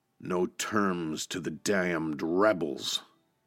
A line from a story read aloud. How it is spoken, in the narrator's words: Smith growled